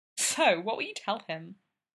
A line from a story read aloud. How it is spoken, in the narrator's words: Ovi asked, chuckling